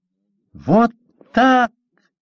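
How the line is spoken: Furious shout, inner voice. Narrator (Russian): яростно крикнул чей-то голос в голове у Степы

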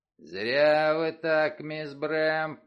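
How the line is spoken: Low booming drone. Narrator (Russian): прогудел Крэмер

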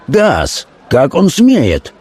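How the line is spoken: Hot-tempered exclamation. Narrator (Russian): воскликнул горячий нотариус

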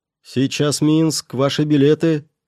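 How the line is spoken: Loud announcement. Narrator (Russian): громко провозгласил он

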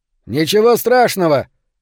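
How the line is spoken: Shouting again. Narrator (Russian): снова прокричал Беннет

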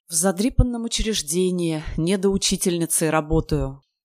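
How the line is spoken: Sad reply. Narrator (Russian): грустно ответила тетенька Ку-Ку

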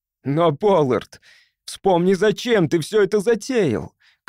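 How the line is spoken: Shout. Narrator (Russian): крикнул я

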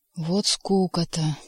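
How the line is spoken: Grumbling. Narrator (Russian): проворчал Рыжий

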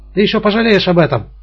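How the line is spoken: Piercing shout. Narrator (Russian): закричал он пронзительно

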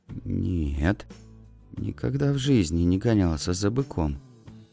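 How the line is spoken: Frightened kitten. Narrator (Russian): испуганно ответил котенок

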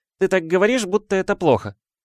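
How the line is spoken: Slightly offended. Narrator (Russian): немного обиженным голосом сказала Гермиона

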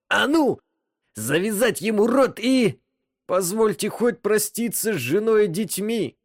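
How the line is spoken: Pleading. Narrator (Russian): взмолился Джан

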